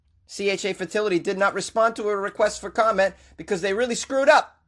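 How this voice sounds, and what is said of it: Put-on Boston accent. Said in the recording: “You enjoying this Boston accent?”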